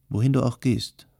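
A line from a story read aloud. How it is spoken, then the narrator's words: Plain. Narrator (German): sagte er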